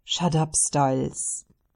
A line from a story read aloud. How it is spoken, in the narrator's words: Derek groans